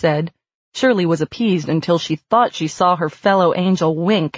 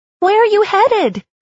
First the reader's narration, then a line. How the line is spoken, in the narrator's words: Goodness called out